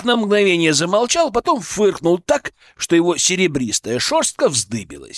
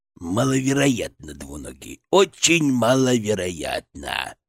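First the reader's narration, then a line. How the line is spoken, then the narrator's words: Creaky rasp. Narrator (Russian): проскрипел он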